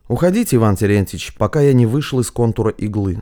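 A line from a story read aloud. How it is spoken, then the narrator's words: Plain. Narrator (Russian): сказал Матвей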